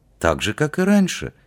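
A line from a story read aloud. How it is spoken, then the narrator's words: Completely calm. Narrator (Russian): совершенно спокойно ответил Кассат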